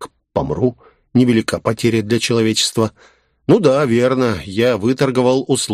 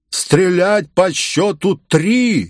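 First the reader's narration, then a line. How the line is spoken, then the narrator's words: Hoarse shout from the shore. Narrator (Russian): сипло крикнул с берега барон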